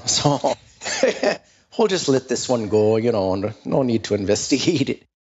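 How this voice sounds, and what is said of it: Put-on Minnesota accent. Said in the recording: “I go to the Minnesota accent there ... that was a very particular style choice”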